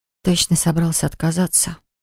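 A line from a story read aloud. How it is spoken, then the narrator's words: Breathed out. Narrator (Russian): выдохнула я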